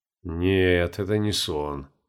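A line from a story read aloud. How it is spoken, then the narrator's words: Gloomy. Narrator (Russian): мрачно произнес он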